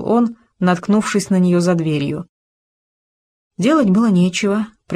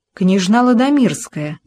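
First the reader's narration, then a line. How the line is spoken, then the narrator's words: Exclaiming. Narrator (Russian): воскликнул он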